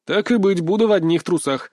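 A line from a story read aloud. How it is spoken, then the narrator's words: Laughing, hiding nervousness. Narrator (Russian): рассмеялся, пытаясь скрыть свое волнение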